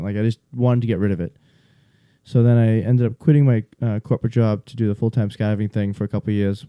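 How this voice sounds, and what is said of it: Boston accent, fast talker. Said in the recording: “I talk fast. I'm from the Northeast. ... I have a funny accent. ... I used to have a super thick accent ... the Boston accent came out super hard”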